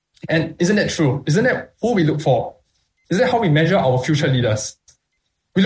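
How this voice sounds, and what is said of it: Usual voice. Nothing is said of it.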